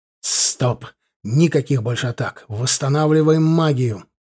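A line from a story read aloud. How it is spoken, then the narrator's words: Hissed. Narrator (Russian): прошипел я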